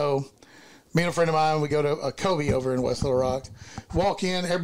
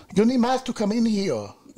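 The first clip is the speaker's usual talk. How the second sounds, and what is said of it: Imitated hard-to-understand foreign accent. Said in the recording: “in a very nice, hard to be understood accent”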